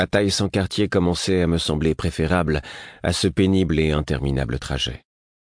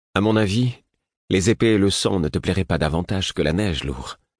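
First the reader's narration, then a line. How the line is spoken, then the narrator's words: Gloomy reply. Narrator (French): répondit le prince d'un ton lugubre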